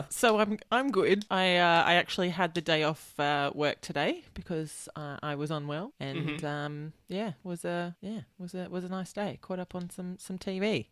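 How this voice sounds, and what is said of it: Rough, unwell-sounding voice. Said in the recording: “You sound awful... you sound like James L. Jones”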